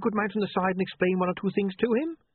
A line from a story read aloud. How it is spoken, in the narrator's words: He said quickly